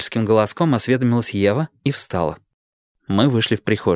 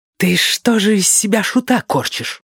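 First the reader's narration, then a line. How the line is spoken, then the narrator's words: Hiss. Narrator (Russian): прошипела она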